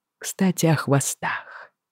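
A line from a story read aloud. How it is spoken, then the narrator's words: Whisper in the ear. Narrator (Russian): шепнул мне на ухо Джейми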